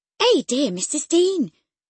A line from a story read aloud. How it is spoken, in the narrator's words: she exclaimed